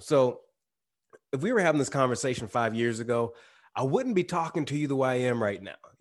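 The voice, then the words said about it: Slight twang in speech. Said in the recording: “the little bit of a, a twang in my voice”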